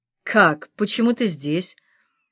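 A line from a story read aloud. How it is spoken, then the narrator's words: Stammering. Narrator (Russian): начал заикаться Макс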